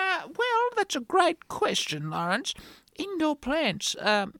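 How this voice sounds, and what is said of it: Usual voice. Nothing is said of it.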